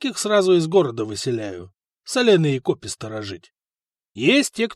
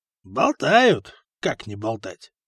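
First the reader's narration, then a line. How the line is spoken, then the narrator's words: Wry grunt. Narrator (Russian): хмыкнул Гораст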